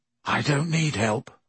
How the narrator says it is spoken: Ron whispered

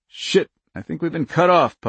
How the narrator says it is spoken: Puck muttered

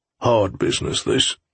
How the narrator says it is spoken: muttered Fox

